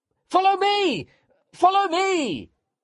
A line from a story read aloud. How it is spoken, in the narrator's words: I shouted